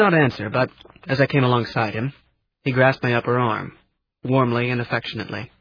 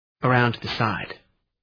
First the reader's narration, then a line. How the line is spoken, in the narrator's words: the old man said softly